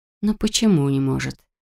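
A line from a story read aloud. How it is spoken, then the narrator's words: Inner-voice whisper. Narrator (Russian): нашептывал внутренний голос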